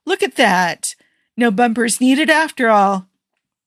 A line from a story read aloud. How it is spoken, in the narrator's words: Tony exclaimed